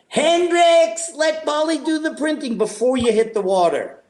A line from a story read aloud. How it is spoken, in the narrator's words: yell